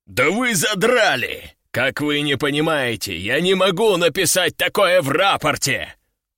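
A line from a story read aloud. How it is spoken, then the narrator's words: Growling. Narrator (Russian): рыкнул Лежаков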